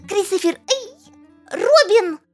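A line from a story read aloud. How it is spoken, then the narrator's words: Shouting cloud. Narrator (Russian): закричала тучка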